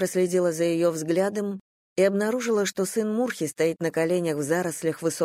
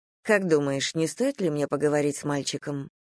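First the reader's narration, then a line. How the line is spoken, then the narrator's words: Plain question. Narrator (Russian): спросила я Орлу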